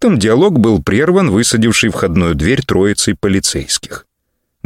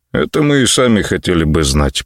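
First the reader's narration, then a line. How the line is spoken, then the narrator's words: Two voices grumbling. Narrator (Russian): проворчал старший дуэт ответственных товарищей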